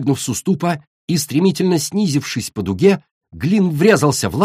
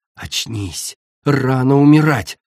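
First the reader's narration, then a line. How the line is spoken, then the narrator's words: Growl. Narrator (Russian): прорычала она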